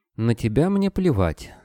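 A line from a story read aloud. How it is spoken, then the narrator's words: Calm. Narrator (Russian): спокойно отозвалась Лена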